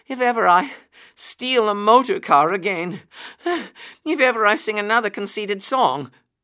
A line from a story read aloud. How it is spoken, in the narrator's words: gasped poor Toad